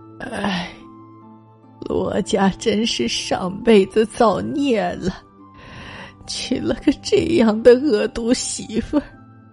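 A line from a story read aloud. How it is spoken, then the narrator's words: Quiet sigh. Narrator (Chinese): 飞宝奶奶…暗暗叹气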